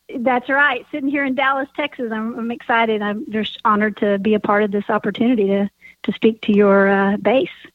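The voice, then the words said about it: Distinct regional accent. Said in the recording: “Love the accent.”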